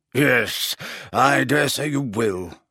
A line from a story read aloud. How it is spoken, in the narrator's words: grunted Slughorn